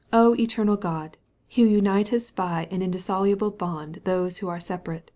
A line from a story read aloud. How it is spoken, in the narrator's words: he read, in a strong melodious voice